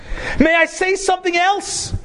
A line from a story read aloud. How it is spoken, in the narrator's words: cried in a ringing voice and asked